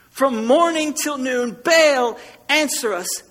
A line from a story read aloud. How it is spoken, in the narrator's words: they shouted